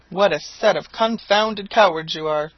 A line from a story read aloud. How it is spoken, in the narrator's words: cried the landlord